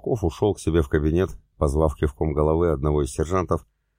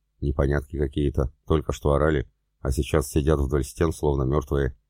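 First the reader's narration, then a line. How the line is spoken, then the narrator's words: Muttering. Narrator (Russian): Быркин пробормотав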